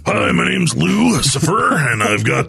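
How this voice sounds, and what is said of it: Evil voice like Rolf the dog. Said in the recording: “my evil voice Rolf sounds like the Rolf the dog”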